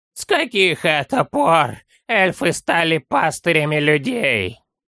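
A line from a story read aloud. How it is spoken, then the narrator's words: Unfriendly grumble. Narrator (Russian): Недружелюбно проворчал Горбун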